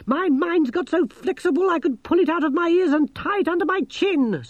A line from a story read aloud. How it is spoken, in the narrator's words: snapped Gerda